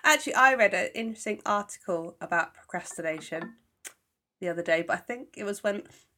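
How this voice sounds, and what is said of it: Congested voice with a cold. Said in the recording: “I've got a cough and a cold, so I'm stotty and horrible”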